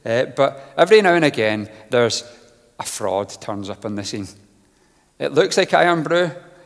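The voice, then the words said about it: Scottish accent. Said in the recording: “My accent deceives me. I'm from Scotland”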